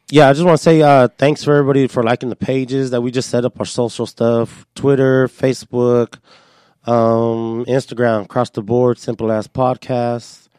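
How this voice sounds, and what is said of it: Hoarse voice from laryngitis. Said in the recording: “excuse my voice a little bit. I'm a little sick ... I got the laryngitis.”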